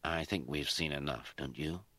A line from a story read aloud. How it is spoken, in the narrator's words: He murmured